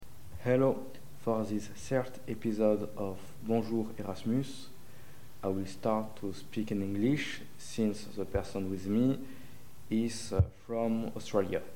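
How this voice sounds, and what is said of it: Non-native accent in English. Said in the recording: “I hope you can still uh, understand me beside my accent”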